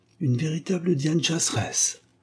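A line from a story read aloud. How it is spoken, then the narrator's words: Murmured to himself. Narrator (French): murmura-t-il pour lui-même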